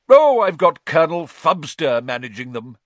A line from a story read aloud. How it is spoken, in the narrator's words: boomed Aunt Marge